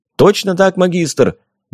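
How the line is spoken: Brisk bark. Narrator (Russian): бодро рявкнул Валяев

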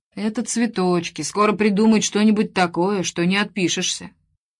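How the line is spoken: Gloomy prediction. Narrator (Russian): Слав Иванович, наш шеф, мрачно предсказал

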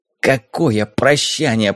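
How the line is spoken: Hissed. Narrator (Russian): прошипел тот

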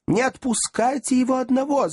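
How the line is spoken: Women shrieking. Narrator (Russian): завизжали женщины

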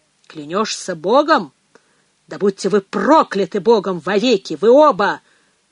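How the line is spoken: Thunderous furious curse. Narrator (Russian): прогремел отец Ральф, единственный, в ком теперь кипел гнев

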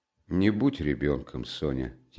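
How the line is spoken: Quiet. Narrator (Russian): тихо проговорил он

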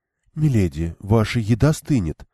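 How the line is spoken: Soft, gentle. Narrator (Russian): мягко заметила Иссанда

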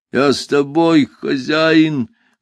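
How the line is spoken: Deep guttural voice. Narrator (Russian): глухим утробным голосом сообщил тот

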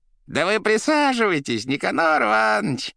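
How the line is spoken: Bold yelling. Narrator (Russian): Нисколько не теряясь, орал гражданин

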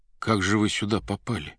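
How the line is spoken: Hushed whisper. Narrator (Russian): повинуясь сухому грозящему пальцу, шепотом спросил Иван

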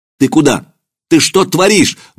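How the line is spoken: Shout. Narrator (Russian): выкрикнул Маркин

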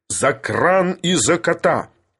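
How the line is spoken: Sudden bark, calm broken. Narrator (Russian): рявкнул вдруг Филипп Филиппович, выходя из состояния иронического спокойствия

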